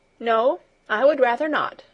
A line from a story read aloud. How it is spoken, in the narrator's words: replied Heidi firmly